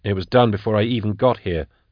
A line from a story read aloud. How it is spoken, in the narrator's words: said Drusha, dryly